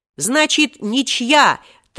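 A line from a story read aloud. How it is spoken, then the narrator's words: Triumphant pleased shout. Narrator (Russian): Торжествующе крикнул им вслед Степан Тимофеевич, очень довольный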